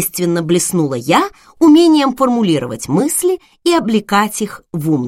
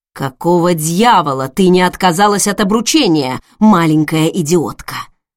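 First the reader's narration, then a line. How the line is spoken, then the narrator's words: Angry hiss. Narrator (Russian): зло прошипел он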